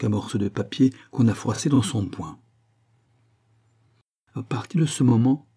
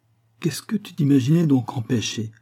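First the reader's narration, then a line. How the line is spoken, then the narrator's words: Plain. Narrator (French): demanda-t-il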